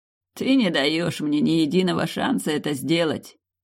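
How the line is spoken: Velvety royal laugh. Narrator (Russian): Бархатно засмеялся король

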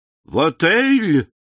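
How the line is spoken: Shocked exclamation. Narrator (Russian): воскликнул Бертуччо, смуглое лицо которого стало мертвенно-бледным

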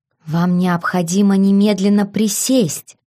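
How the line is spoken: Hiss. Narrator (Russian): зашипела я на него

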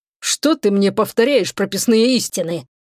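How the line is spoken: Displeased grumbling. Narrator (Russian): заворчал Шегран недовольно

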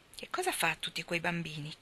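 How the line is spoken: Plain. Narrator (Italian): chiese Nat

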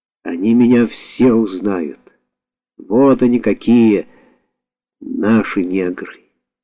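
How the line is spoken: Moved mutter. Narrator (Russian): растроганно пробормотал

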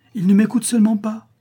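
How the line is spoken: Exclaimed. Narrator (French): s'écria-t-elle

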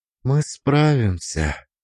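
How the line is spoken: Quiet. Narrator (Russian): сказала она тихо

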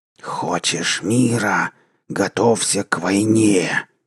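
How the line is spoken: Hostile hiss. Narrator (Russian): прошипел чужой и враждебный голос

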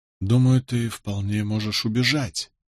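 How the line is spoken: Barely audible whisper. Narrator (Russian): произнес я еле слышным шепотом

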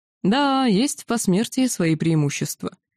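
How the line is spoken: Amused cheerful reply. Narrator (Russian): Тесурт хмыкнул и весело ответил

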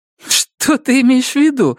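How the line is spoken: Laughing. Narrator (Russian): засмеялся Робин

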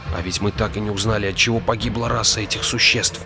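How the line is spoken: Whispered in ear. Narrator (Russian): прошептал Иовал на ухо Инешу

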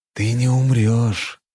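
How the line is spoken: Hissed close to ear. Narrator (Russian): прошипел я, наклонившись к его уху

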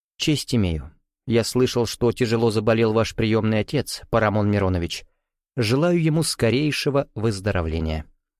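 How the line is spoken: Quiet. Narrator (Russian): негромко добавил

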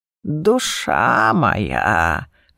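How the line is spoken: Creaky old man. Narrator (Russian): проскрипел старик

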